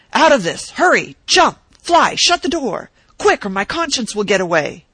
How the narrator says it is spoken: in consternation and shouted

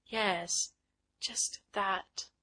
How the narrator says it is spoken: did Miss Fulton murmur

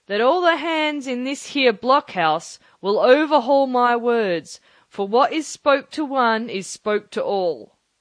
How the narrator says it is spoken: raising his voice

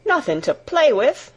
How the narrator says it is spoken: exclaimed Martha

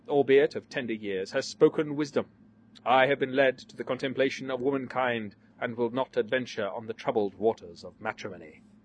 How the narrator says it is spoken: observed the gifted gravely

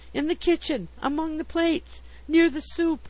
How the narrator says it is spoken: I gasped

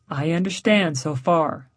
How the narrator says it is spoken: Meyerstone said

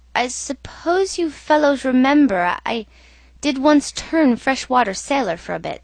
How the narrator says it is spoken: he said, in a hesitating voice

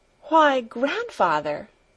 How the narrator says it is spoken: exclaimed

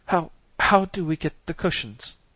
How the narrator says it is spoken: demanded breathlessly

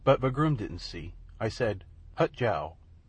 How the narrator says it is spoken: said Wee Willie Winkie calmly

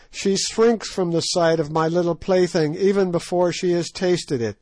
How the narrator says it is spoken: cried Scragga in a high glee

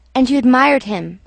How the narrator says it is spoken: she said

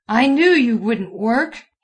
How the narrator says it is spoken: he roared

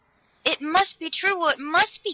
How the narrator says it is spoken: Galatea cried

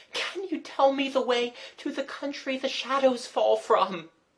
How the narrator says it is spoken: she sobbed

